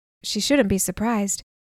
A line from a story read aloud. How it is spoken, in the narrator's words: said the first